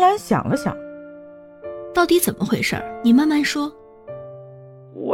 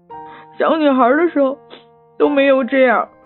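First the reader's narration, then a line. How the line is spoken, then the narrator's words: Tearful voice. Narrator (Chinese): 还带着哭腔说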